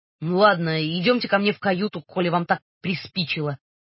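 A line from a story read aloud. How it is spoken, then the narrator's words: Pompous booming. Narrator (Russian): важно выпятив двойной подбородок, прогудел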